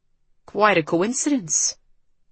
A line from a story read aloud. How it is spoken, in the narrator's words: he murmured